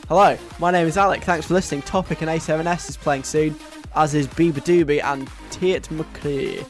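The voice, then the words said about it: Bad put-on Scottish accent. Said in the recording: “That was an attempt at a Scottish accent, it's quite bad.”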